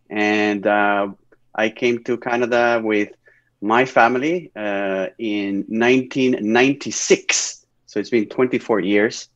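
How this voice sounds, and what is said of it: Spanish accent in English. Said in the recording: “I'm originally from Spain, northern Spain, Bilbao ... I guess I still have an accent after all these years ... Spanish accents”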